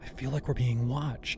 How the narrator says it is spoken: she whispered

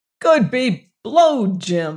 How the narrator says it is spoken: I cried

